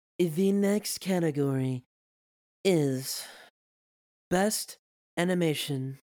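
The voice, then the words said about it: Imitates an awards show announcer. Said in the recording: “Was that a good impression of the lady from the Oscars? ... That was good.”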